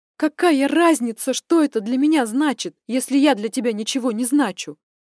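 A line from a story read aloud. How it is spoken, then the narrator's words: Near shout in face. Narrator (Russian): Почти закричала ему в лицо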